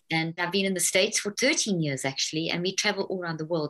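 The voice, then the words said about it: South African accent. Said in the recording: “you've got such an interesting accent... your accent reminds me of her... It's that South African accent.”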